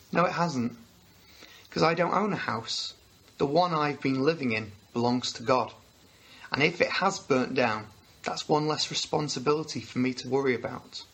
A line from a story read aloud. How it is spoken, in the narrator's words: he calmly replied